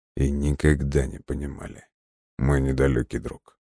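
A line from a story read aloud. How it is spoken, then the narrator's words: Cold. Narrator (Russian): холодно продолжал Бран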